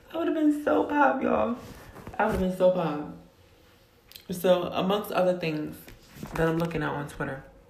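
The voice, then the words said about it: Slightly hoarse voice. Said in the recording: “Excuse me, my throat is a little hoarse.”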